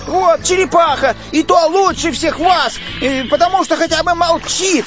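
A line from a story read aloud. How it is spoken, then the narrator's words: Shouted. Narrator (Russian): крикнул он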